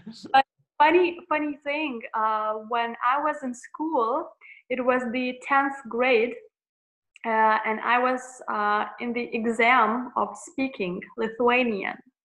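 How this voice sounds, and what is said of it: American-accented English. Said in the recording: “her english is really good ... the American accent”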